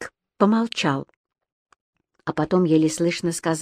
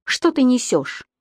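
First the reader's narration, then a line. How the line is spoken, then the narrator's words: Exclaimed. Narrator (Russian): воскликнул Бирк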